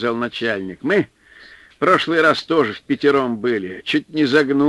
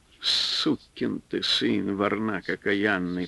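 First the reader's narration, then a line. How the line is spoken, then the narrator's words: Quiet cursing aloud. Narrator (Russian): вслух негромко ругался он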